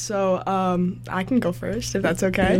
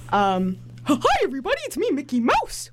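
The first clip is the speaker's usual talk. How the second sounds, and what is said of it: Mickey Mouse cartoon voice. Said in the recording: “do a Mickey Mouse impression”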